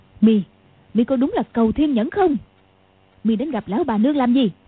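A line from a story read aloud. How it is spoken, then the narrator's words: Shouting. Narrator (Vietnamese): quát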